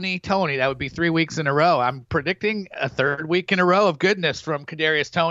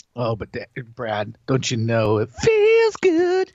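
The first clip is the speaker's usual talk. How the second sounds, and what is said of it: Singing in falsetto. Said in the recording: “you can actually hit that falsetto. I'm impressed.”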